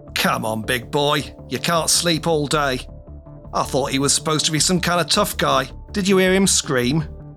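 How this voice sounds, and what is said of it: London accent character voice. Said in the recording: “The sound of a London accent”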